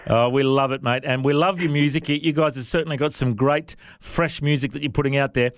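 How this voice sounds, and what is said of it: Non-American accent. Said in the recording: “do you guys understand my accent? I know a lot of US artists we speak to don't understand our accent.”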